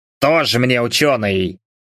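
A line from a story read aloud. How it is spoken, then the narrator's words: Snorted. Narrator (Russian): фыркнул усач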